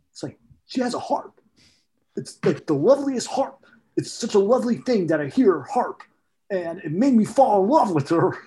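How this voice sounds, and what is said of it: Andy Samberg impression. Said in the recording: “do an Andy Samberg impersonation. ... That's a good Andy Samberg. ... Spot on.”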